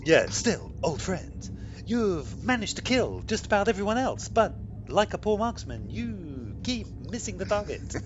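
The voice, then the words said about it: Impression of Captain Kirk's voice. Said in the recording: “Because he really does say it like that ... I think you're ideally suited to this ... I should be a Kirk impersonator ... That was pretty good.”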